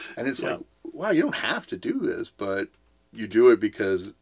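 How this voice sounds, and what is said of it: Usual voice. Nothing is said of it.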